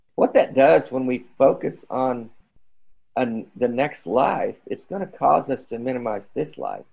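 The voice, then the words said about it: Strained, failing voice. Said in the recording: “I'm losing my voice here.”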